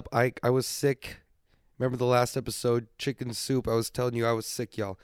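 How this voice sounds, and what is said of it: Stuffed-up, congested voice. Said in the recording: “I sound stuffed up.”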